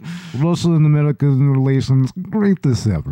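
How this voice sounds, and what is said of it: Put-on Russian accent. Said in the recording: “speaking Russian ... in a Russian accent”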